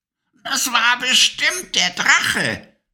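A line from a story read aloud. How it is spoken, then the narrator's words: Witch's croak. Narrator (German): krächzte die Stimme der Hexe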